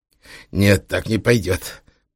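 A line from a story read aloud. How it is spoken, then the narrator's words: Through clenched teeth. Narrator (Russian): процедил Трехглазый через стиснутые зубы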